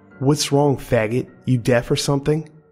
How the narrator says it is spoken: he asked

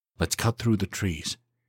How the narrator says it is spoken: he said quietly

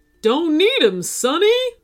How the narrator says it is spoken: the unicorn DJ cried

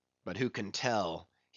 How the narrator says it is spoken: he muttered

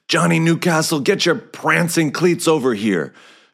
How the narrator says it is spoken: shouted Coach Kepler, who was a brawny beefcake of a man

